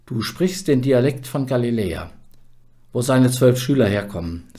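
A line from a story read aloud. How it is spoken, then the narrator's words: Plain. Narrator (German): sagte einer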